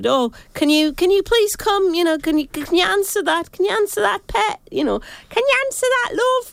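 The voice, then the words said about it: Imitates another person's accent. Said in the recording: “that's her accent.”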